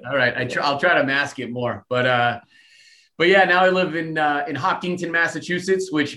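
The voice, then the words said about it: Slight Boston accent. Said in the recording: “that accent's coming through just a little bit.”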